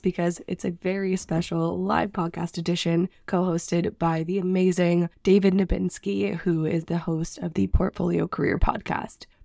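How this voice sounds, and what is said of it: Sick, rough-sounding voice. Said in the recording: “I am a little bit sick right now, and my voice is sounding crazy. I promise it sounds better in the episode”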